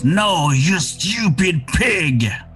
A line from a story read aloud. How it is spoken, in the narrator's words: He screams